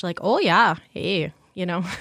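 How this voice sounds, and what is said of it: Northern Minnesota Yooper accent. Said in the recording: “Youpers have an accent... It sounds like Northern Minnesota. Northern Minnesota-ish.”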